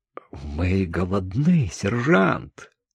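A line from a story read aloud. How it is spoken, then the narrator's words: Agitated. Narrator (Russian): Франц взволнованно сказал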